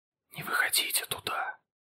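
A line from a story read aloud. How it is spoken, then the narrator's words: Whisper. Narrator (Russian): прошептал он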